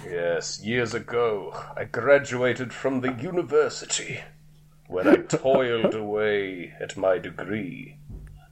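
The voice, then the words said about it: Exaggerated fantasy character voice. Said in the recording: “you slip into that voice ... do that voice ... he's that like fantasy guy ... the guy with the crazy voice”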